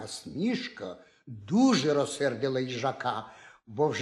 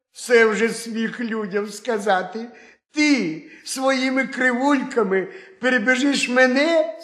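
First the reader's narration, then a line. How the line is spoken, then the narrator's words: Laughing hare. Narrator (Ukrainian): сміявся заєць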